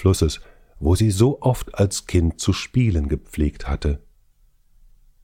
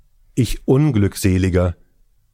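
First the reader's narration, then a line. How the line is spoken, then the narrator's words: Old man crying out, despairing. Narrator (German): rief der Greis bei dieser Entdeckung aus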